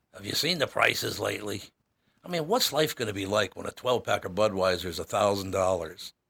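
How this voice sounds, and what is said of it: Poor Peter Falk impression. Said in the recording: “that horrible impression ... I was trying to do Peter Falk and failed miserably”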